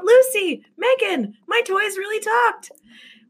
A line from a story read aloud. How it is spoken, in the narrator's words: she called out